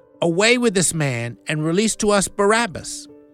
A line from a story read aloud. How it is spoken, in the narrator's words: they all cried out at once, saying